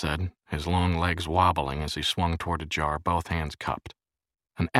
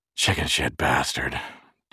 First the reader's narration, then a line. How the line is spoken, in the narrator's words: Jerry said, panting with pain